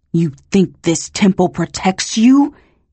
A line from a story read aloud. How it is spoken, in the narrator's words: he hissed